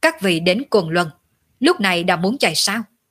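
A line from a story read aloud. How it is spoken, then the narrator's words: Cold arrogant shout. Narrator (Vietnamese): Ngọc Cơ Tử sắc mặt lạnh lùng, ngang nhiên nhìn bọn Khinh Linh Tử quát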